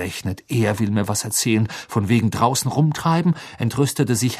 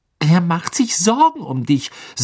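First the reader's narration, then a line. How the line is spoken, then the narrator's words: Sharp. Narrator (German): sagte Hermine scharf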